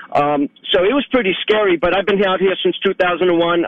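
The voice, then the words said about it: Strong regional accent. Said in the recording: “it's good that you haven't lost the accent.”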